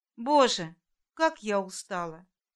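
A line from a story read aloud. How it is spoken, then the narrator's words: Sighing quiet mutter. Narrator (Russian): вздохнуть, пробормотать тихонько, когда никто не слушает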